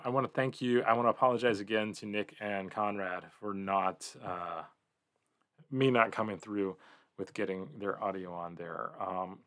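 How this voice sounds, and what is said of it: Tired, hoarse, fading voice. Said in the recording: “I'm really tired. You could probably hear me losing my voice a little bit.”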